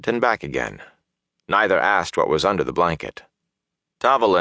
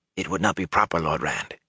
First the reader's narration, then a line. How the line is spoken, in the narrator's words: he whispered